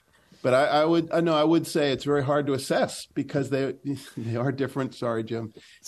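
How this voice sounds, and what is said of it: Boston accent. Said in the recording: “I try my best to cover the world with a Boston accent.”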